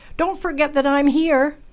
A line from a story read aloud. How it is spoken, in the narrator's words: shouted